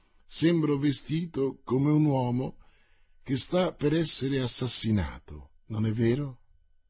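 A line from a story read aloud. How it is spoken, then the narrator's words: Calm, curt voice. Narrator (Italian): disse Mordaunt con la sua voce calma e recisa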